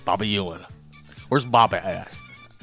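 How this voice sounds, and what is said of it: Put-on Dallas Texan accent. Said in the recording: “Is that an accent that you're working on over there? ... That's Dallas. ... that's how folks in Dallas talk?”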